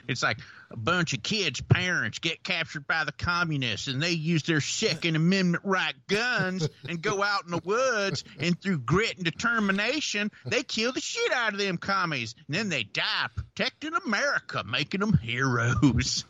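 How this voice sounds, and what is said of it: Put-on Southern US accent. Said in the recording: “if you just say this movie description with a Southern accent, it sounds really, really bad”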